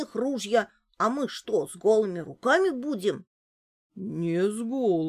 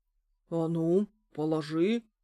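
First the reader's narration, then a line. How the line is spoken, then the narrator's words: Stern old man. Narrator (Russian): строго сказал дед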